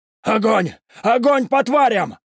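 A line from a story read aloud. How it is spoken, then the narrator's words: Shouting. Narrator (Russian): кричал лейтенант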